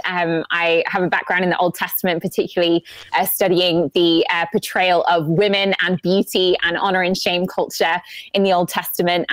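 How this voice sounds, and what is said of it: English accent. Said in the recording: “obviously you can tell by the accent, I'm not a native ... I'm from England”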